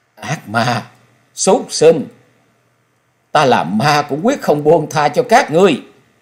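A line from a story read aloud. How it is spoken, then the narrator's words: Anguished ghostly shriek. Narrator (Vietnamese): Xảo Ngọc trong thê lương bi thiết, giọng của nàng rít lên như lệ quỷ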